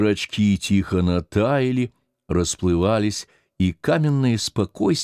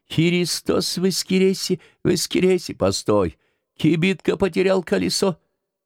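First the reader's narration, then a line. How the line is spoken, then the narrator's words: Joyful squealing, singing. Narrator (Russian): радостно взвизгивал Антон и запевал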